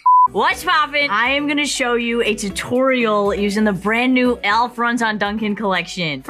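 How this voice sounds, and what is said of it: Strong Boston accent. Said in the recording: “she has an amazing Boston accent”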